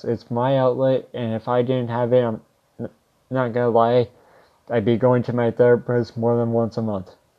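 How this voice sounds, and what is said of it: Strained, failing voice. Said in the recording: “I'm slowly losing my voice.”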